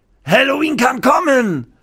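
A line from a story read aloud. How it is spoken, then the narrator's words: Cook calling out. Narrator (German): ruft der Koch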